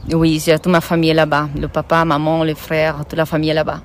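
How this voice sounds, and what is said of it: Brazilian accent in French. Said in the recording (French): “tu as un accent qui est d'un pays que j'aime beaucoup, c'est le Brésil”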